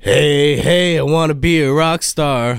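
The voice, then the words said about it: Raspy rock-star singing voice. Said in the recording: “playing around with my raspy voice”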